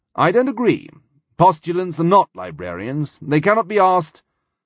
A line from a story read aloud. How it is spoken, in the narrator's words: Wolf said in a deceptively casual voice